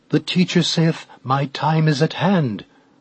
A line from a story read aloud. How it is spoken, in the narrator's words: he exclaimed